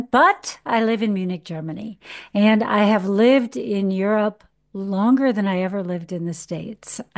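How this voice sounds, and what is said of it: American accent. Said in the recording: “I am an American, as you all may guess from my accent”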